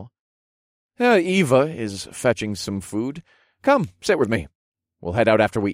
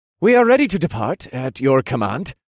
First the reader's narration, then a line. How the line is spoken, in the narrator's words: he informed me in a clipped voice